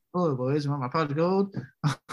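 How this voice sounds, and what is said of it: Imitates another person, leprechaun-like accent. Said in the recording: “my Jolie impression ... You sound like a leprechaun.”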